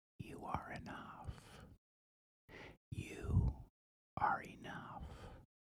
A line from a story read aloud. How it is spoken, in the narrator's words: smiles whispers in your ear